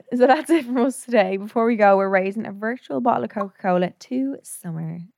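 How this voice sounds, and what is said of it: Slightly hoarse voice. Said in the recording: “I'm going hoarse a little bit ... A little from the chest.”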